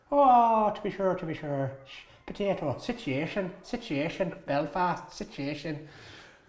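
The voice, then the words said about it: Put-on Irish accent. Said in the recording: “give us your best Irish accent”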